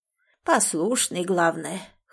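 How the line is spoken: Hoarse, breathless. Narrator (Russian): хрипло отозвалась другая, чуть отдышавшись

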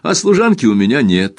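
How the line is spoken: Laughing. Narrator (Russian): смеясь добавила

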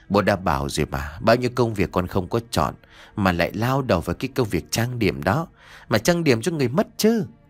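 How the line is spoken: Sighing old man. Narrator (Vietnamese): ông Trấn thở dài mà nói

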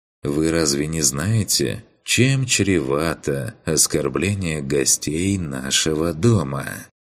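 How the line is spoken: Insinuating soft question. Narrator (Russian): вкрадчиво поинтересовался он

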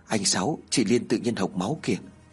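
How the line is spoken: Trembling whisper. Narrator (Vietnamese): Thằng Biển thì thào nói run rẩy

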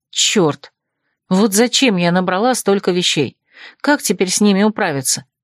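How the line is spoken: Sad sigh. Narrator (Russian): с грустью вздохнула

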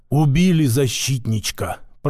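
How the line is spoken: Whisper from behind. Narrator (Russian): прошептал за моей спиной Васька

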